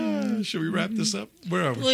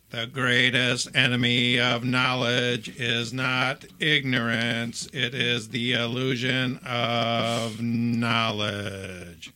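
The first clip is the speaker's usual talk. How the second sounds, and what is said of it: Good Stephen Hawking impression. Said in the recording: “It's a pretty good impression ... It's a very good impression.”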